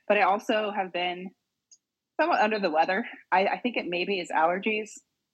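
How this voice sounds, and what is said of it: Slightly raspy, deeper than normal voice. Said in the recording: “you can still hear it a little bit in my voice. I'm a little raspy ... a little bit, yeah ... And a little deeper than normal.”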